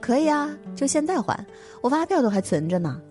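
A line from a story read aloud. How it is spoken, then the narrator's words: Laughing retort. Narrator (Chinese): 老张笑着怼回去说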